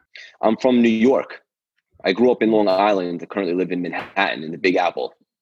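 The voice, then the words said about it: New York accent. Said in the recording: “I don't know if you can tell by the accent. ... Thought so”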